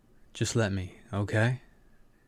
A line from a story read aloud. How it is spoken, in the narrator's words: Kiva asked, his voice low and husky